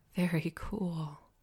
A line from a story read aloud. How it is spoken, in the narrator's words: I grinned and murmured